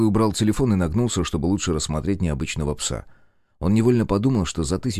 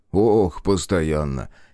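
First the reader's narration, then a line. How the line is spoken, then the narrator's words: Laughing. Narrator (Russian): Игорь засмеялся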